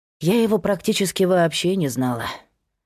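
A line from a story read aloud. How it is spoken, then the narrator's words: Sighing. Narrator (Russian): вздохнула Кира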